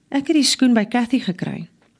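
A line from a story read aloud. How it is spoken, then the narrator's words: Calm. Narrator (Afrikaans): sê hy ewe rustig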